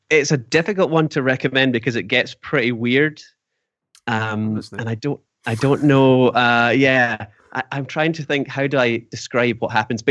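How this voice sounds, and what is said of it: Scottish accent. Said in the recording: “the Scottish accent.”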